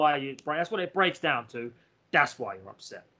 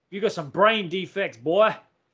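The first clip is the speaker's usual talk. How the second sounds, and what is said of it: Put-on accent. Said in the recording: “That's probably not the best accent to do that in, actually. That's not good.”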